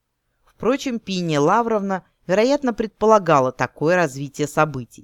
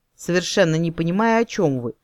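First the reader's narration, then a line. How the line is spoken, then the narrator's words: Muttered, mildly panicked. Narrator (Russian): пробормотала в легкой панике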